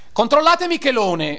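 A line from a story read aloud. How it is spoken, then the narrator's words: Shouted. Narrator (Italian): gridai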